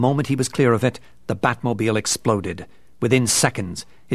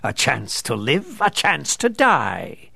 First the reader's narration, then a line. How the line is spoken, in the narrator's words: he intoned